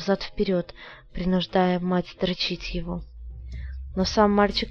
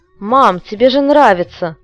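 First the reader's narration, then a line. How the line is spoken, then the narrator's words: Rude. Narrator (Russian): грубо произнес сын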